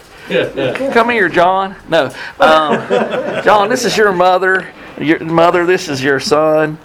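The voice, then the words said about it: Put-on Southern US accent. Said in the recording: “with a southern accent, I'm pretty sure. He had a southern accent.”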